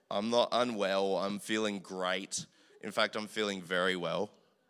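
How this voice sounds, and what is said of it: Strained, worn-out voice. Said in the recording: “excuse my voice because it isn't like this usually. It's just in a real funky state from a real loud day yesterday”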